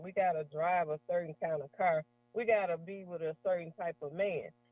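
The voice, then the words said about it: Mississippi Southern accent. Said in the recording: “I'm just going to talk the way I talk. Slang and all, I'm from Mississippi. It don't make my dialect no better than yours.”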